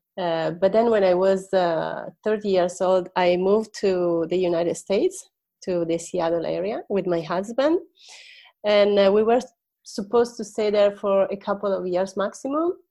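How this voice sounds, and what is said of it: Italian accent in English. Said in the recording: “Italian English accent”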